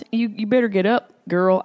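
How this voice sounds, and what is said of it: Put-on southern twang. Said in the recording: “I don't know why they have a southern twang in Colorado”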